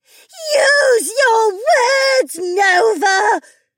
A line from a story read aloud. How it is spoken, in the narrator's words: screamed at herself